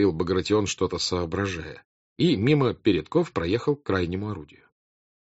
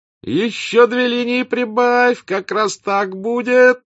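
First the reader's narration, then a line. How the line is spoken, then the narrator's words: Thin voice forcing jauntiness. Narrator (Russian): закричал он тоненьким голоском, которому он старался придать молодцеватость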